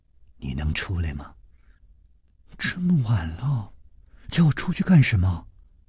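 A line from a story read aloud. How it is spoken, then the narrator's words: Breathless trembling voice. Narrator (Chinese): 他的呼吸好像有些急促了，声音开始发抖了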